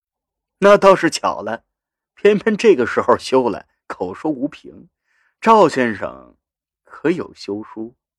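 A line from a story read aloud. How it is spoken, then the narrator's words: Startled, then sneering. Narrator (Chinese): 田中愣了一下，随即讥笑道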